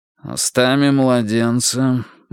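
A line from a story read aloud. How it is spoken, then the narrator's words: Meaningful snort from corner. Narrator (Russian): многозначительно хмыкнул из угла Карл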